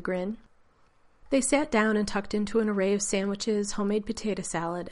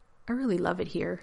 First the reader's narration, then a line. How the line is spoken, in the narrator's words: he murmured